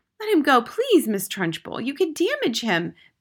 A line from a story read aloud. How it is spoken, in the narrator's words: begged Miss Honey